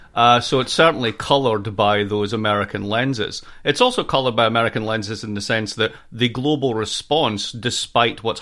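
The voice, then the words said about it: American accent. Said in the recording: “as you can hear from my accent, I'm a proud American citizen”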